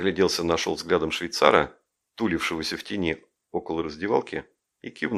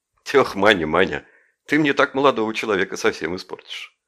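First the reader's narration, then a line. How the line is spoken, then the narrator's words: Laughing. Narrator (Russian): Жеглов же рассмеялся и сказал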